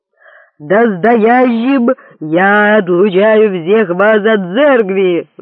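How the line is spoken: Howled. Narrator (Russian): взвыл папа

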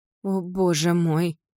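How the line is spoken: Breathless exhale. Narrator (Russian): выдохнула Мара

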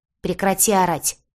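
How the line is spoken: Barked from above. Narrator (Russian): рявкнули сверху

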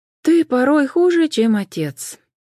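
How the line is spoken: Sighing. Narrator (Russian): вздохнула Джен

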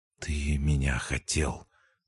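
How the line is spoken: Whispered to himself. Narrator (Russian): проговорил сам себе шепотом

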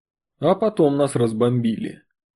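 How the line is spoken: Calm. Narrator (Russian): спокойно завершил рассказ Артем

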